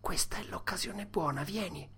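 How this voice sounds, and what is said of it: Whispered line. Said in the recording (Italian): “Tom sussurrò”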